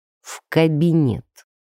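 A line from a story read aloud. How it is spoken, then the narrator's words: Through gritted teeth. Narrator (Russian): процедил начальник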